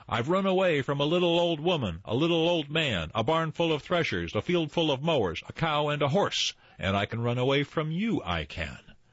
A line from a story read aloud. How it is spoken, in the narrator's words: called out to him